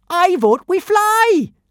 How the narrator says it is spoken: yelled

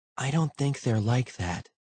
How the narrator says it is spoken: Liana said softly

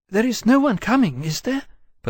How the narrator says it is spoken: Psyche asked, a little anxiously, worried in another direction entirely

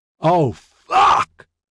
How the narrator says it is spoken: Justine yelled

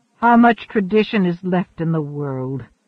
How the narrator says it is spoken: Aliat asked bitterly

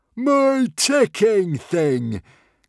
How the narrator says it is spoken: cried Norbert delightedly

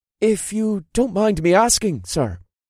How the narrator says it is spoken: Ryandale said in a hesitant tone

